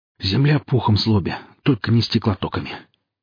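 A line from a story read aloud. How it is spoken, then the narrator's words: Breathless, forced out. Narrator (Russian): единственное, что успел выдавить запыхавшийся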